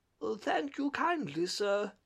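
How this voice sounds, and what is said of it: Feeble, weak character voice. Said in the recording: “in a feeble voice.”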